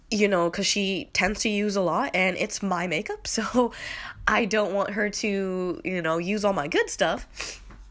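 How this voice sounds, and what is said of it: Slightly nasal, congested voice. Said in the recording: “I'm a little nasally, I have a little cold”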